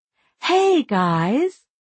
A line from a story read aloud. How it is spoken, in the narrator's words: Gretchen said warmly